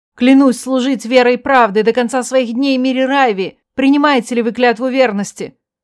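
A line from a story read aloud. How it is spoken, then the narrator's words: Exclaimed reply. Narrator (Russian): воскликнула в ответ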